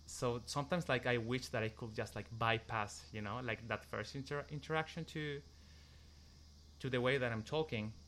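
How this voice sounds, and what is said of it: Foreign accent. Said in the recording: “because of my accent, so it's like, oh, this person is from somewhere else”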